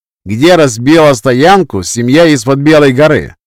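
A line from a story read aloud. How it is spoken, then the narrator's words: Loud question. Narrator (Russian): громко спросил Рету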